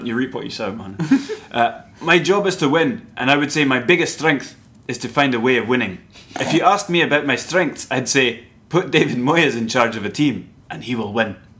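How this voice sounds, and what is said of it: David Moyes accent impression. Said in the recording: “Accent alert.”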